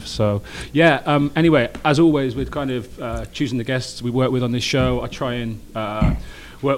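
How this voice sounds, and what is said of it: English accent. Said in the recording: “my charming English accent”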